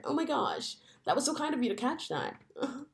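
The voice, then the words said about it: Affected white lady voice. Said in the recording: “do it in your white lady voice”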